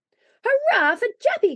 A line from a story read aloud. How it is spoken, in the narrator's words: cried Santa Claus